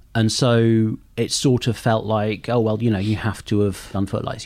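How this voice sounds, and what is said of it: Southern English accent. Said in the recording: “I have this accent ... grew up in the south of England”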